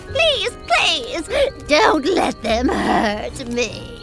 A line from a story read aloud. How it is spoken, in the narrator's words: moaned